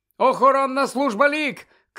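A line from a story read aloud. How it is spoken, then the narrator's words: Shout. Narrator (Ukrainian): крикнув він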